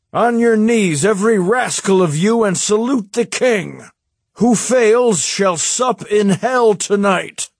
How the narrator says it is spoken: shouted

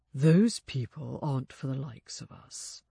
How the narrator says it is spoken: he said quietly

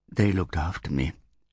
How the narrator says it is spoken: whispered

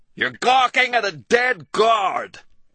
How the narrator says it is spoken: Gary screamed at the top of his voice

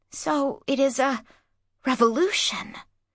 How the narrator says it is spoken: whispered Inanni at last

